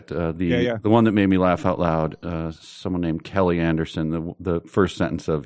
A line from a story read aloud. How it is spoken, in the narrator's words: he sighed wearily and replied in a tone that can only be described as despondent